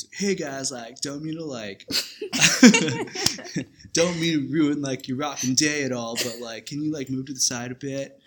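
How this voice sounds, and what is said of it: Spot-on Southern California surfer accent. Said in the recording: “that accent was, like, spot on”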